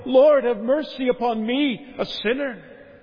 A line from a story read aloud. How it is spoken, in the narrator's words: the publican in the temple who beat upon his breast and would not so much as lift up his eyes into heaven, but cried